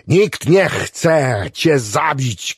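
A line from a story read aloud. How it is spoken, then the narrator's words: Shouted. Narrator (Polish): krzyknął Clevenger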